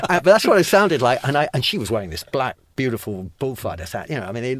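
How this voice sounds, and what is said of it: Usual voice. Nothing is said of it.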